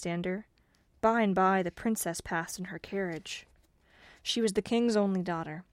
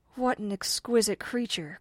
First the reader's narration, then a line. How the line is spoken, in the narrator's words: cried the farmer